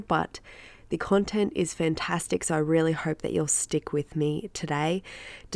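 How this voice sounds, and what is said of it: Nasal, congested voice. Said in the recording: “I am not well, courtesy of my darling daughter and her daycare germs ... my voice is a little bit nasally today ... my dodgy voice”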